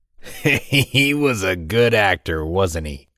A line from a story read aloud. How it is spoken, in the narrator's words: laughed the large man